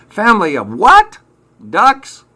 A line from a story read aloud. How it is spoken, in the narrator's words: yelled Michael